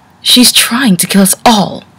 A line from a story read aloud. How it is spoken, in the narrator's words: Celestia cried